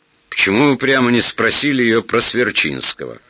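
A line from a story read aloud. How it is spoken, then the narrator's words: Angry question. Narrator (Russian): сердито спросил подполковник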